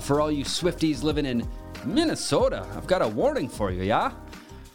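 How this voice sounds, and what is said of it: Put-on Minnesota accent. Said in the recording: “That's my Minnesota accent.”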